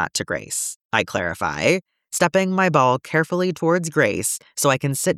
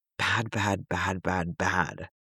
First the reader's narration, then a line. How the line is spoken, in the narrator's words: Grace whispers, so much quieter than it normally talks